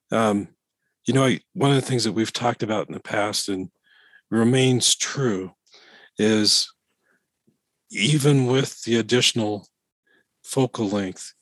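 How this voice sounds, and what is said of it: Voice sounds impaired. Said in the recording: “apologize for my voice”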